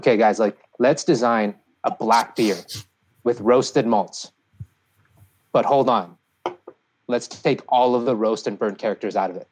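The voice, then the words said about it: Put-on German accent. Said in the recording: “let's just imagine me saying this in a German accent”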